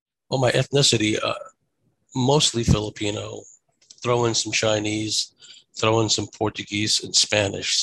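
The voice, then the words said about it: American accent. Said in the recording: “you can tell by my accent, I grew up in America. So that's why I sound the way I do.”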